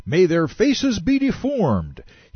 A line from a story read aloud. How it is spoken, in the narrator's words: He shouted